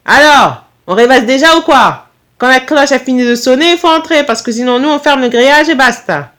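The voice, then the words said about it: Strong Corsican accent, firm tone. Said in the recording (French): “avec un fort accent corse ... son ton était ferme”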